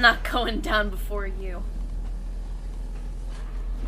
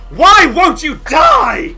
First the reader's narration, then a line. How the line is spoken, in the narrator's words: he lets out a howl of pain and says